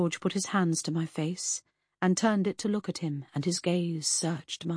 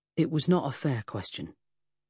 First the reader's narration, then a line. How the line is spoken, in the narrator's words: mumbled